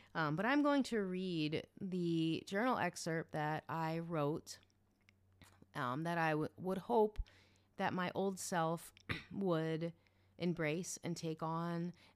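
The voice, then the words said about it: Slightly congested voice. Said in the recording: “I have a little bit of a cold”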